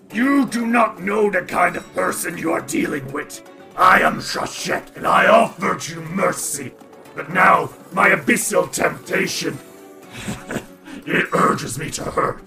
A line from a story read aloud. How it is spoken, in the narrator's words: snarls and says